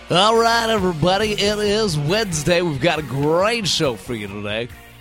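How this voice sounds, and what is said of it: Exaggerated radio announcer voice. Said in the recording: “Radio Voice Day ... You sound like a really, really upset Casey Kasem.”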